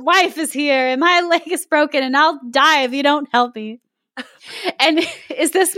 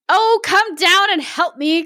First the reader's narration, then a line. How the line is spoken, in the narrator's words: cried the woman